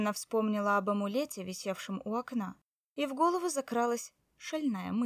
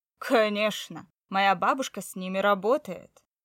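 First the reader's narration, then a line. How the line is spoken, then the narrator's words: Chuckling. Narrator (Russian): он хохотнул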